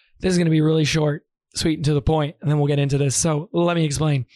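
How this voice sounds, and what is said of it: Hoarse, nearly lost voice. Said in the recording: “I have completely lost my voice... you do not have to listen to an entire hour of me sounding like this... My voice is gone. It's bad. It actually hurts really bad right now.”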